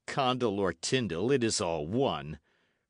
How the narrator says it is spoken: replied Sir Daniel coolly

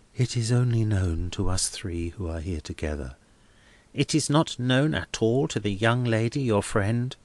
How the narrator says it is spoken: Helena answered in a low tone

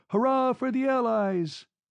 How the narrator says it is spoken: Fat females collapsing with dignity upon the floor and retaining self-respect by shouting

